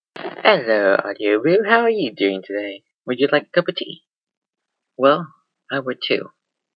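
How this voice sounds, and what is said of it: Poor put-on British accent. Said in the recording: “a little taste of a poorly British accent”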